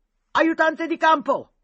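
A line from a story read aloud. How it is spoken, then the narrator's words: Shouted. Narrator (Italian): gridò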